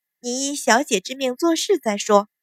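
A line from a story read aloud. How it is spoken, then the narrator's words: Smiling. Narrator (Chinese): 清平含笑道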